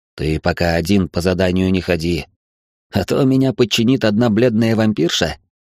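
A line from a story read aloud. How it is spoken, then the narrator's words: Snorting, amused. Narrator (Russian): Георг хмыкнул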